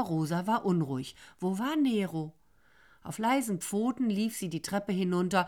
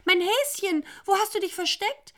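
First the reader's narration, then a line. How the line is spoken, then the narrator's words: Calling out. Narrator (German): rief sie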